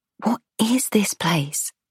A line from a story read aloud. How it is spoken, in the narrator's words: I lean towards Theo, whisper